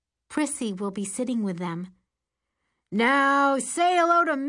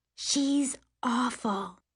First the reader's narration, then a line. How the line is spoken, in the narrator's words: Allison whispers to me